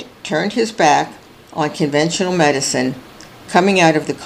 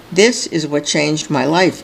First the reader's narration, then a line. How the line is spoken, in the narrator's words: says White